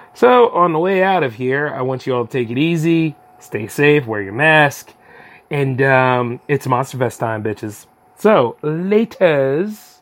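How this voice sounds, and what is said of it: Raspy, strained voice. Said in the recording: “all that voice acting is starting to catch up with me. That's why I sound kind of raspy”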